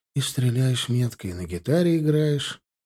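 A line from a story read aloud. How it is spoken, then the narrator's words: Sad snort. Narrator (Russian): хмыкнул Стасик грустно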